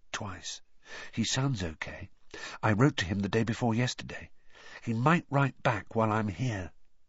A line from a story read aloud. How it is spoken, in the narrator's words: said Harry softly